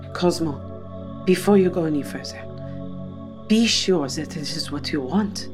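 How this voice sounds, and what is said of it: French accent. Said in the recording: “what's that accent? Is that Dutch? ... I'm French.”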